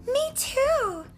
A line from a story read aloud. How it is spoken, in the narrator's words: Ronnie cried